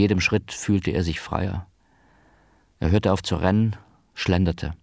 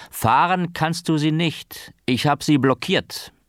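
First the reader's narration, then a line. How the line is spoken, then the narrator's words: Calling after him. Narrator (German): rief ihm nach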